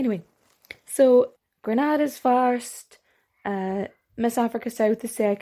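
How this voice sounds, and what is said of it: Usual voice. Nothing is said of it.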